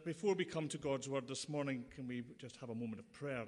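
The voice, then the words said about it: Noticeable non-local accent. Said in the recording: “as you can guess from the accent”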